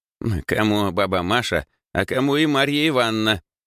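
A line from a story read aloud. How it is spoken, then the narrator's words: Old woman grumbling. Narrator (Russian): проворчала старушка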